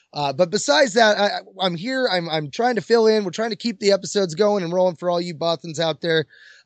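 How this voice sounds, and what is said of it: Hoarse, strained voice. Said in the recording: “my voice is thrashed from all the swearing I was doing in all the tight places”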